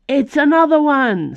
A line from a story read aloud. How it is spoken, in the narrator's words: someone yelled